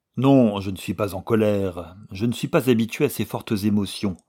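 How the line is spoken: Jerky, halting reply. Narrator (French): répliqua Sheldon d'un ton saccadé

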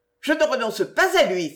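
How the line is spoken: Exclaimed. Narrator (French): s'écria-t-elle

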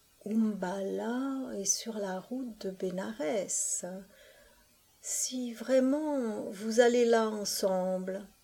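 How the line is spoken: Near whisper. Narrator (French): il commença, presque dans un murmure

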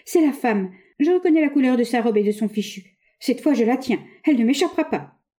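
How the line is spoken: Exclaiming. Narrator (French): s'écria-t-elle

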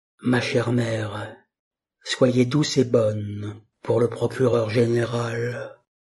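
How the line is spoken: Low voice. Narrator (French): lui dit à voix basse

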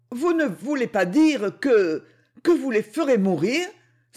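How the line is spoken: Frightened exclamation. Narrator (French): s'écria avec effroi

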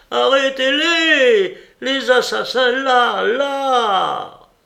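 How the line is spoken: Shouting. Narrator (French): cria

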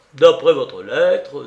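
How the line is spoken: Harsh tone. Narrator (French): déclara d'un ton âpre Raskolnikov

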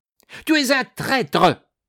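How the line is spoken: Shouted. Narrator (French): cria Laplace

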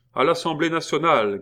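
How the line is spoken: Shouted. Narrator (French): cria-t-il

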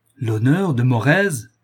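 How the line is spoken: Thundering shout. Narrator (French): cria le marquis d'une voix tonnante

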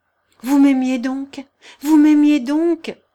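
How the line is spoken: Exclamation. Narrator (French): s'écria Thibaut

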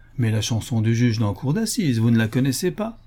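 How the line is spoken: Brisk. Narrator (French): Harris vivement

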